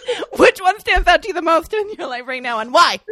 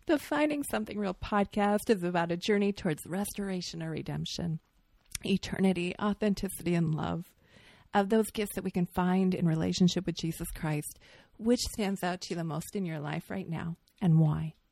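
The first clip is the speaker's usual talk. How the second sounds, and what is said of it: Announcer-style podcast voice. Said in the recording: “I should use my podcast voice.”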